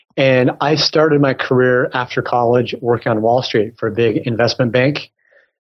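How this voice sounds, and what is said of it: American accent. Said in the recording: “I'm obviously American from my accent”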